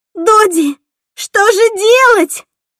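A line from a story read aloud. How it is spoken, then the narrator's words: Shouting. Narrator (Russian): кричала Кассандра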